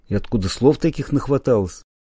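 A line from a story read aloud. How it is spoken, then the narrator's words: Weighty objecting tone. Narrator (Russian): Вида решил не подавать и значительным тоном возразил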